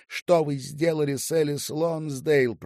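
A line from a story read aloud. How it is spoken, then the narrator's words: Booming, thunderous. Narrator (Russian): прогремела Бренда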